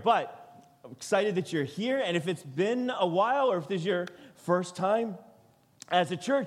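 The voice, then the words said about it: Voice still recovering, weakened. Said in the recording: “lost my voice a week or so ago and it's still recovering”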